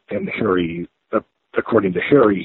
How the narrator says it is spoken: he pleaded

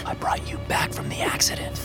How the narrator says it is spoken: I whispered

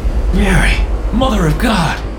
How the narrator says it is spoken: I gasped

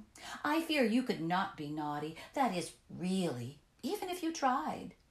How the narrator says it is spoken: she said scornfully

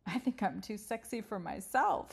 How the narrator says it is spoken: laughed

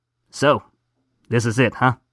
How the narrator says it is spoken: asked Donald

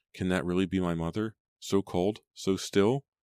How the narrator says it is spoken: sobbing

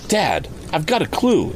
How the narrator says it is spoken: exclaimed Tom, hurrying into the house

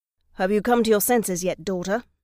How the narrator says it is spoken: growled in a calm, menacing voice

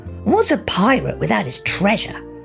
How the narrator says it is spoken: Crawford grumbled

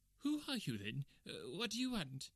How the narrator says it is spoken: he asked in a quavering voice

